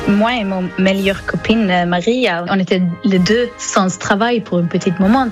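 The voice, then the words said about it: Slight Swedish accent in French. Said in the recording (French): “vous avez un petit accent ... je viens de Suède”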